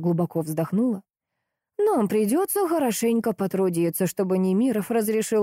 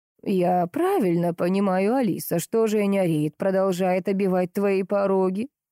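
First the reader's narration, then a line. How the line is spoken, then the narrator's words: Plain. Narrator (Russian): спросила Глафира Григорьевна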